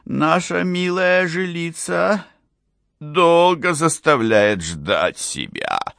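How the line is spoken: Thin, sickly voice. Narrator (Russian): наконец сказал он тоненьким, болезненным голосом

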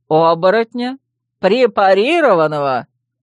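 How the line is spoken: Loud laughter. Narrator (Russian): Он расхохотался

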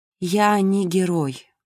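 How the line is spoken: Weary objection. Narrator (Russian): устало возразила Марго

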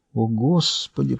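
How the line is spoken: Whispered. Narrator (Russian): прошептала Линда

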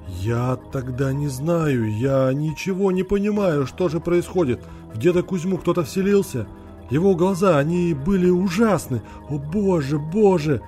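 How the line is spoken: Long drawn-out moan. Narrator (Russian): протяжно застонал Андрей

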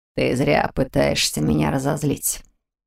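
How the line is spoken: Calm remark. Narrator (Russian): спокойно заметил Антуан

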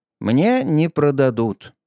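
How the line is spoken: Sigh. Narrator (Russian): вздохнул Аврелий

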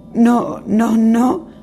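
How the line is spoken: Sobbing. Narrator (Spanish): sollozó Arya

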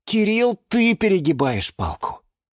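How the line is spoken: Sighing. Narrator (Russian): вздохнул Юра

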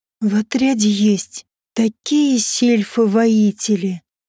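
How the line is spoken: Cooing. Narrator (Russian): проворковала Фата Мэй

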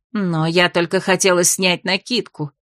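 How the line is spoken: Indignant hissing woman. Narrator (Russian): возмутилась шипевшая женщина

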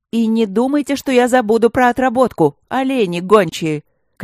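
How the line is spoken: Shouted after departing people. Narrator (Russian): крикнула вслед удаляющимся горе-любовникам госпожа Лыськова

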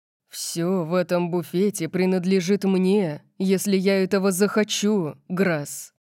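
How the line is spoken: Growled. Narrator (Russian): Прорычал он

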